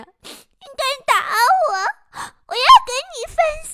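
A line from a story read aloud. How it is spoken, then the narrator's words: Crying while running. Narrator (Chinese): 哭着，边跑还边说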